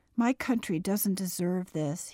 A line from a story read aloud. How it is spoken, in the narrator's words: said sadly